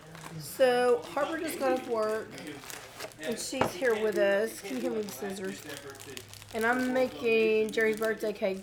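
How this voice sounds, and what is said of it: Low, hoarse, congested voice. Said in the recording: “He and I both have this upper respiratory thing, so my voice is weird. ... I sounded like a really low voice this morning.”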